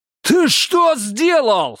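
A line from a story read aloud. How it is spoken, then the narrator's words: Yelling. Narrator (Russian): заорал он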